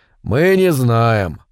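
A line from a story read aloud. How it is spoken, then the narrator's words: Calm and firm. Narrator (Russian): спокойно и твердо ответил Рауль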